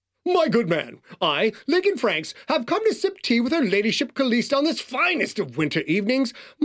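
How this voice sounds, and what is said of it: Over-the-top old-money East Coast accent. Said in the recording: “the over-the-top accent of an old-money East Coaster”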